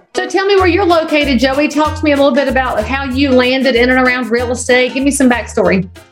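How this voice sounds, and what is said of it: Southern American accent. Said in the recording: “I'm a good Southern boy too... I love your accent.”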